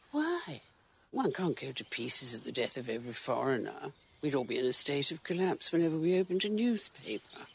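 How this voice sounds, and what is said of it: Aristocratic upper-class English accent. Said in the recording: “This is the accent, basically. This is what I think of and why you're an aristocrat.”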